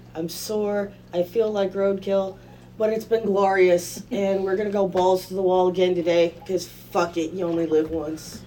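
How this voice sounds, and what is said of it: Raspy, rough hoarse voice. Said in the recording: “I sound like my throat's made of sandpaper”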